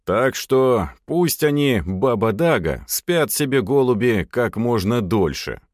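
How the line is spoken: Exhaled, summing up. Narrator (Russian): выдохнул Головин, подводя итог

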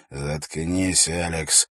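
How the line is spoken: Angry hiss. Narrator (Russian): гневно прошипел Эрак

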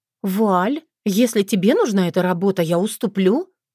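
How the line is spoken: Cheerful, feigned naivety. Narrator (Russian): радостно повернулась к ней Таня, приняв вид недоумевающей дурочки

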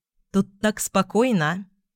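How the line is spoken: Plain. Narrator (Russian): сказала я

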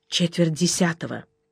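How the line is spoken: Whisper. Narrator (Russian): шепнул Жеглову

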